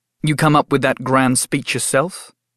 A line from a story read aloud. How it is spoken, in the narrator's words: I snapped